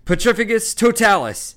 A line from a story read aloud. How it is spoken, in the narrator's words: yelled Harry, struggling to cling to the smooth, soaked surface of the island